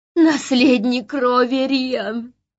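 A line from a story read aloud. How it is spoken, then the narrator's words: Moaning. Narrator (Russian): простонала Тангира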